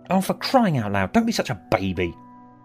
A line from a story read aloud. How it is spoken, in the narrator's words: snapped